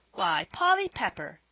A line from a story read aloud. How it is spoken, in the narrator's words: exclaimed Joel